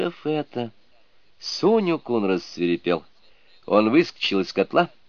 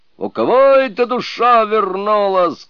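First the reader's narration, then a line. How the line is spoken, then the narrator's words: Shouting. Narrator (Russian): кричал Суню-кун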